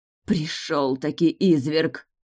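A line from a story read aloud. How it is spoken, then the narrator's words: Hiss. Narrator (Russian): прошипела женщина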